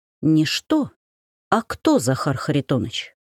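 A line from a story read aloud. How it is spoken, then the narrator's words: Quiet reply. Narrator (Russian): так же тихо ответила я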